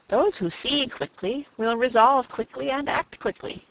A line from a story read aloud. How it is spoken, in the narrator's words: said Julia